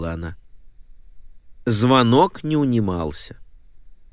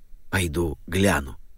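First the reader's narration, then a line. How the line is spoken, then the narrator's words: Whispered. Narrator (Russian): шепнул мистер Александр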